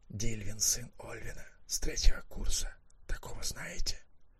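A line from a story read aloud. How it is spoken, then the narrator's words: Whispered. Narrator (Russian): Маккехт тоже шепотом сообщил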